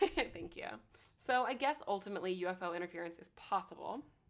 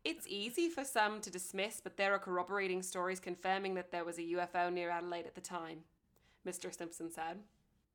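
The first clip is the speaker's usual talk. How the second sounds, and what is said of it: Put-on accent, not very convincing. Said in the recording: “You're getting pretty good at that. ... that may have been the best I've ever done the accent. It wasn't good, but it was definitely a personal best.”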